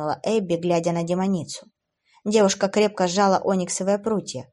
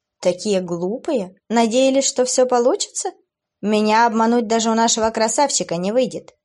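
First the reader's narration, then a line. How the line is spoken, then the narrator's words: Laughing again. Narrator (Russian): Снова рассмеялась она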